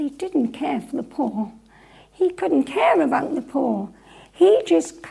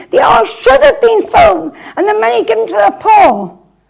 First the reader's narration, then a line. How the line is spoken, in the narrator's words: he shouts out